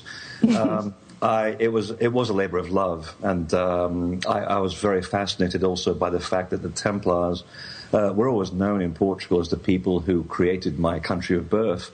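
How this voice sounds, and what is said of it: Portuguese-accented English. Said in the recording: “having been born in Portugal, and this is why I'm talking about strange accents”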